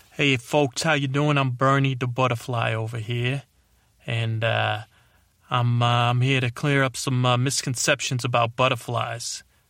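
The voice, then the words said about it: Character voice with put-on accent. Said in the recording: “why do I got an accent? ... So I got an accent.”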